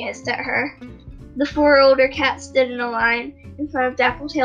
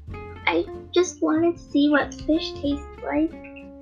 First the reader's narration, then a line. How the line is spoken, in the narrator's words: White Eye mumbled